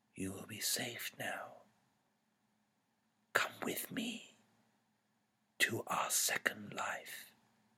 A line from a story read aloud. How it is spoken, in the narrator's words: A dark figure whispered